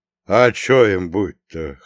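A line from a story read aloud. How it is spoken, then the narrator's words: Snort. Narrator (Russian): хмыкнул Прохор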